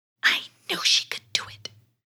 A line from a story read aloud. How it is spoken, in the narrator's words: he whispered to Henry